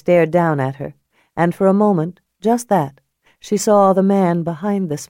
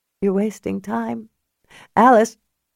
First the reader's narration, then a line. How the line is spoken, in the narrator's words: her voice broke this time